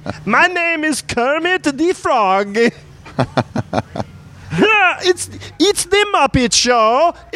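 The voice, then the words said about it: Russian-accented frog voice imitating Kermit. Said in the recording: “a good impression of the Russian frog Constantine trying to do an impression of Kermit the Frog”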